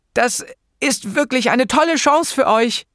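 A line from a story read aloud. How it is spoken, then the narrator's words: Croaking. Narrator (German): krächzte ich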